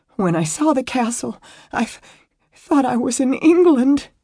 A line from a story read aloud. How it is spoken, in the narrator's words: she choked out